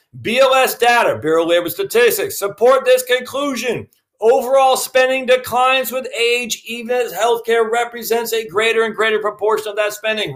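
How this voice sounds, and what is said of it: Yelling, loud emphatic speech. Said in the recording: “Why am I yelling?”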